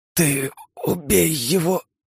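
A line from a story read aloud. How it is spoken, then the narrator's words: Wheezed. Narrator (Russian): прохрипела Лия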